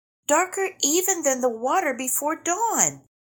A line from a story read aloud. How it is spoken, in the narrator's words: the little bat exclaimed